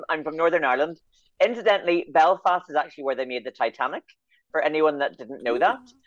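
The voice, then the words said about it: Northern Irish accent. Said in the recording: “I'm beaming in from Belfast, in case anybody's wondering what the accent is.”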